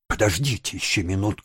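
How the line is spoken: Exclaimed. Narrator (Russian): воскликнула Росс

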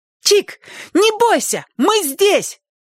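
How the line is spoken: Sudden shrill cry. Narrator (Russian): вдруг пронзительно крикнула Сонька

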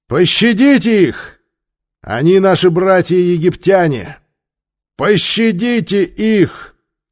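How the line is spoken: Loud shout. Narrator (Russian): Их хватило только, чтобы громко крикнуть

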